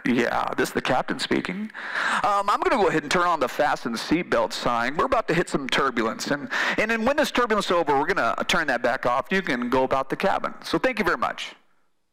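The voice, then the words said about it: Imitates an airline captain's intercom voice. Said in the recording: “How was my captain impersonation? Was that good?”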